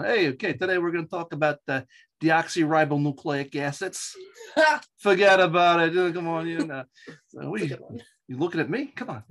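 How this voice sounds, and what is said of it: Strong Long Island accent. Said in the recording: “I'm a Long Islander. I was born and raised on the East End of Long Island. And sometimes you can still hear the traces of my accent. ... I can still bring it back.”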